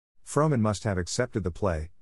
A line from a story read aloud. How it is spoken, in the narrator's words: exclaimed Bambi